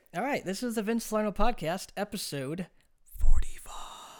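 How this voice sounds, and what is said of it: Whispering. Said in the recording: “Don't know why I'm whispering”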